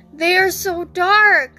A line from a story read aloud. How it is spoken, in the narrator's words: cried out in fear of ruining his first batch of cookies ever